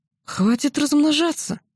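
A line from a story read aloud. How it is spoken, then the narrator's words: Irritated demand. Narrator (Russian): раздраженно потребовала я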